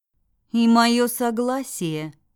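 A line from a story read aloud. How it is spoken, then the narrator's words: Stern reminder. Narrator (Russian): напомнила строго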